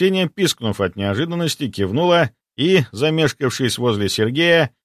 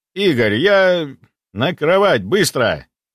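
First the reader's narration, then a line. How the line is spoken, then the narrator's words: Commanding, almost barking. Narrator (Russian): Едва не гаркнув, приказал я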